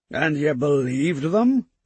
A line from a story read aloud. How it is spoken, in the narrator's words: Mander asked, a small sneer on his face